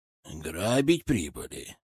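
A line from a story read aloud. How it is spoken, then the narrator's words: Angry, distrustful question. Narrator (Russian): зло и недоверчиво спросил Алексей Матвеев сын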